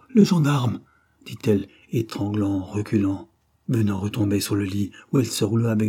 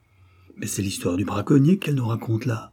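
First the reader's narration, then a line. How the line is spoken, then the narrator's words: Murmured. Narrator (French): murmura-t-il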